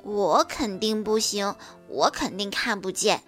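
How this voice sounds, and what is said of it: Quiet, soft voice. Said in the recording (Chinese): “小声地说”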